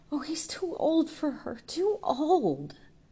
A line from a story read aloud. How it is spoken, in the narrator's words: cried Jude in all the terrible sickness of hopeless, handicapped love